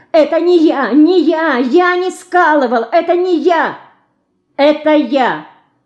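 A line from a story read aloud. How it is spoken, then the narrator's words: Unexpectedly loud. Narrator (Russian): неожиданно громко сказала Динка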